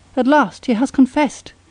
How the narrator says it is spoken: cried Trubikov

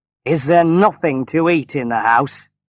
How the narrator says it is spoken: he asked roughly

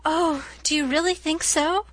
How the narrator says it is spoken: exclaimed Anne, flushing sensitively with delight

